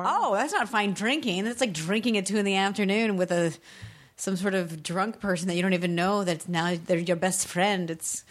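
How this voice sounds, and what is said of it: Slips in and out of Irish accent. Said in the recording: “you go back and forth now going in and out of your Irish accent”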